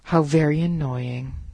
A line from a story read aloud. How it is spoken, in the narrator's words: sighed the eagle, thinking regretfully of the tender morsel he had let slip